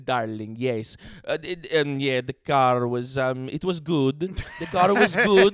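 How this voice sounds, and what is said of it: Weak attempt at Italian accent. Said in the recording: “what's an Italian accent? ... Oh my God, my brain is fucking broken. I can't even do it.”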